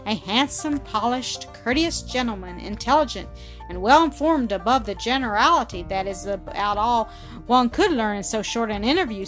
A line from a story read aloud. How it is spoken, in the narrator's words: said Claire, and Claire laughed low and musically